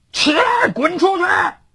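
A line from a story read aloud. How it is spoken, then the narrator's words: Angry shout. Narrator (Chinese): 林峰冲着床上早已吓得魂飞魄散的那个裸男大喊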